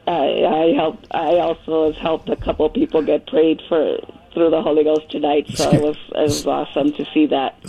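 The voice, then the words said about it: Hoarse voice. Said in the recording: “I'm really hoarse from all the speaking in tongues.”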